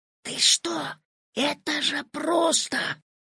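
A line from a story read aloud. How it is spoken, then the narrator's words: Whisper. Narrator (Russian): зашептал Петя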